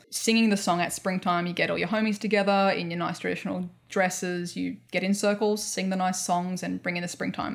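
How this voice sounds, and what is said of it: Australian accent. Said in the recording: “Australian accent, sorry”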